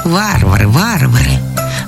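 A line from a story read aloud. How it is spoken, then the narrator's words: Purring. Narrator (Russian): замурлыкал голубь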